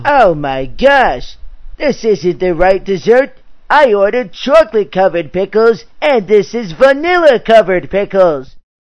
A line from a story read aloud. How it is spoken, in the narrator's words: angrily exclaimed